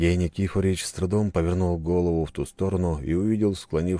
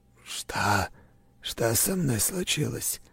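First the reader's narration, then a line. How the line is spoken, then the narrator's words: Strained dry whisper. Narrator (Russian): с трудом прошептал Сергей Никифорович, с трудом узнавая собственный голос и ощущая неприятную сухость во рту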